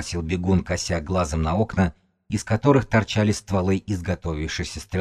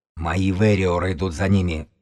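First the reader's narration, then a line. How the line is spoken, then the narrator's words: Growling. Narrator (Russian): прорычал косолапый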